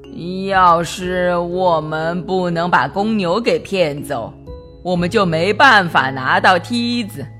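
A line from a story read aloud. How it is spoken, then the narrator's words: Old man, worried muttering. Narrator (Chinese): 派老头满脸忧虑的嘀咕着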